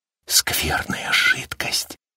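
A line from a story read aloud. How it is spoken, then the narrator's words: Whisper. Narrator (Russian): прошептал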